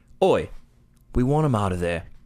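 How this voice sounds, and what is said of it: Poor put-on British accent. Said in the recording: “That's not a very good British accent”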